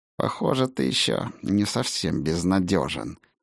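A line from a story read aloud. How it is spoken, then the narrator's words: Through gritted teeth. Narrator (Russian): сквозь зубы процедила Сигрлин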